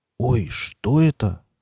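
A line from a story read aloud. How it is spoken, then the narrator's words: Admiring whisper. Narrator (Russian): восхищенно прошептал Миша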